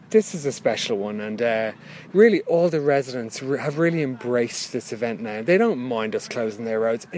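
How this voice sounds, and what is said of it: Irish South Dublin accent. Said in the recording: “You're not from round here, are you? I can tell from your accent ... I'm from South Dublin”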